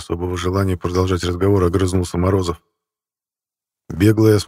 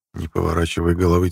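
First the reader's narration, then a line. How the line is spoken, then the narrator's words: Quiet. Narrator (Russian): тихо сказал Калюжный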